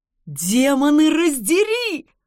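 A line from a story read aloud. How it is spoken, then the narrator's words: Delighted exclamation. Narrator (Russian): воскликнул кто-то восторженным голосом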